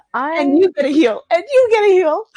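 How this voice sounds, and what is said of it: Peppy put-on gnome character voice. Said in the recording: “peppiness overflowing. ... putting on this voice ... be the Oprah of the gnomes”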